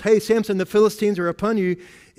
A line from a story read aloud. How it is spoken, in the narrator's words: she yells